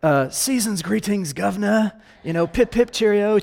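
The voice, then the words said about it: Put-on British accent. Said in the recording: “You put on your best British accent ... it just sounds better in that accent”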